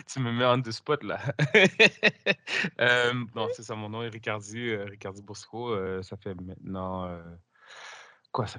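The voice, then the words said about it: Québécois French accent. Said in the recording (French): “accent québécois ... les aficionados euh, des accents québécois, vous allez être contents”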